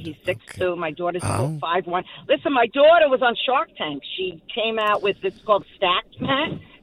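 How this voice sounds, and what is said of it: Brooklyn accent. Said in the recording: “I must have a real Brooklyn accent.”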